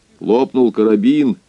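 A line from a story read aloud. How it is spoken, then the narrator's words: Dull, hollow voice. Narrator (Russian): все тем же глухим голосом продолжал владелец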